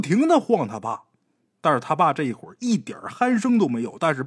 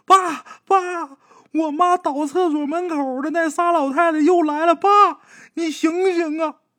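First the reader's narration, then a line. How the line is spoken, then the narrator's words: Frightened crying. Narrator (Chinese): 鬼友吓得哇一下就哭了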